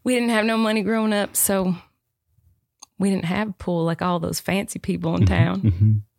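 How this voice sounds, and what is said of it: Put-on Southern accent. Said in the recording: “if you're doing this in a Southern accent”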